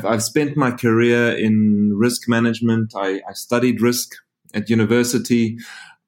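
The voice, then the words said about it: South African accent. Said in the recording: “I'm a South African. If you're asking where the funny accent's from”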